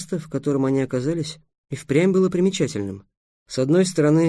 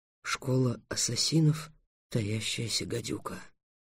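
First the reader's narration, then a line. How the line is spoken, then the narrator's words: Thrilled, fearful whisper. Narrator (Russian): замирая от сладкой жути, прошептал Трикс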